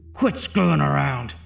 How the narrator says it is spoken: He barked angrily into the microphone

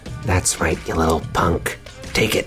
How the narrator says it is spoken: Arete is going to whisper into the goon's ear

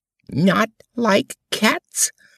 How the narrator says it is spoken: cried the mouse in a shrill, passionate voice

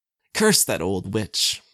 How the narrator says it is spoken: he spat

